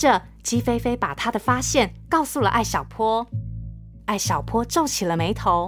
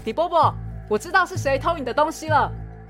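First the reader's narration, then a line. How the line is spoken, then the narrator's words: Loud, excited. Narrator (Chinese): 艾小坡大喊一声…大声说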